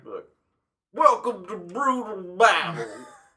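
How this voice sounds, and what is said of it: Bill Cosby impression. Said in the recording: “weird voice. ... I can do like a Bill Cosby voice for it.”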